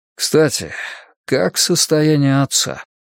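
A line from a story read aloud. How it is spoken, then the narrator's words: Slight sigh. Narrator (Russian): Масахико слегка вздохнул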